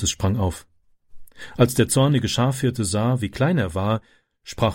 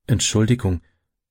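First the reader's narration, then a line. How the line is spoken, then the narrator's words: Stammering. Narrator (German): stammelte Francis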